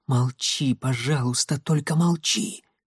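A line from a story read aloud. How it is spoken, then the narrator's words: Whisper. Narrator (Russian): шепнула она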